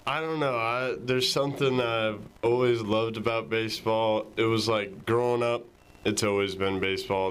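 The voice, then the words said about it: Tennessee Southern accent. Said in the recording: “I've had one of my best friends growing up was from the Tennessee area. So it's great to hear that accent again”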